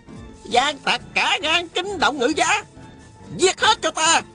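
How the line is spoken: Shout. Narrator (Vietnamese): Tào Quá Thuần la lên

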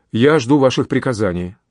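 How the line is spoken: Calm reply. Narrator (Russian): спокойно ответил де Крессе

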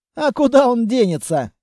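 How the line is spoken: Laughing. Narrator (Russian): рассмеялся Амбал

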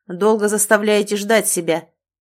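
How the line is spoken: Angry, curt. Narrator (Russian): сердито бросил мне незнакомый черноволосый парень

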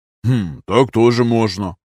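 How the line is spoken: Amused snort. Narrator (Russian): хмыкнул Тревельян

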